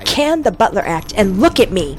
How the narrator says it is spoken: She snapped

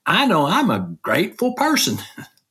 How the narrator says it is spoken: in that Tennessee accent that she has

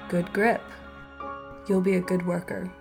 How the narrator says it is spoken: mumbled Papa

